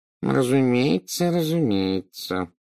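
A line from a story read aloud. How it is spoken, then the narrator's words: Mumbling. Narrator (Russian): забормотал Горбин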